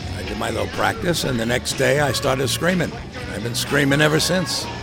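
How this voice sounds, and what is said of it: American accent. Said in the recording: “I was fortunate to be the only one with an American accent.”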